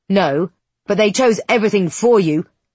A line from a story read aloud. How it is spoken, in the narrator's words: he snaps